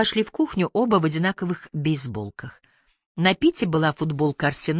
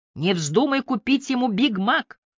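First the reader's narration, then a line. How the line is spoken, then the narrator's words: Shout. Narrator (Russian): крикнула Би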